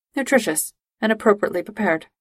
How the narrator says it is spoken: Spock replied

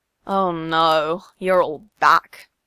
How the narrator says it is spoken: Aizawa sighs

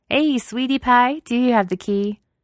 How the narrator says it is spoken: loudly asks

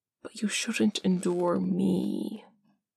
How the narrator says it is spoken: Parm whispers

